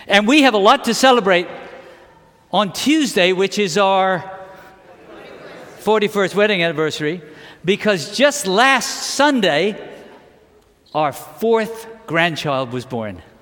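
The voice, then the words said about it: British accent. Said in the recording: “born in England, and my British accent comes back when I talk about it”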